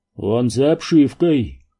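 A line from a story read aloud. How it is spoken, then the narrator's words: Moaning. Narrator (Russian): простонал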